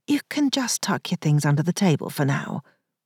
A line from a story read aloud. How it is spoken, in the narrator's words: Pauline murmured